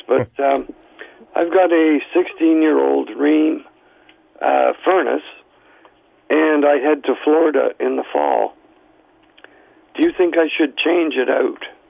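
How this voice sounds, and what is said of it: Hoarse, fading voice. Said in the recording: “I'm sorry I'm losing my voice”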